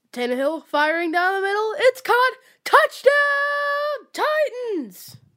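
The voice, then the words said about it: Impression of a sports play-by-play announcer. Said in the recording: “the voice of the Titans, Mr. Mike Keith ... your best Mike Keith impersonation”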